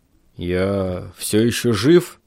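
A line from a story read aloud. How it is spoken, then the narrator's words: Hoarse rasp. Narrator (Russian): прохрипел я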